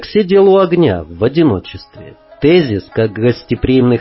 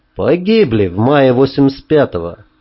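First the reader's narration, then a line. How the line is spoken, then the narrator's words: Plain. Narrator (Russian): ответил я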